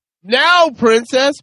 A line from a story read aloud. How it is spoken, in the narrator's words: he shouts